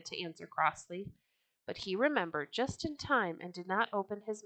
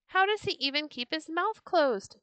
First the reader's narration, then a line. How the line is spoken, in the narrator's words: the children jeered